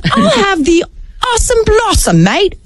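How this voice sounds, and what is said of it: Put-on accent. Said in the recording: “You don't need an accent to order it.”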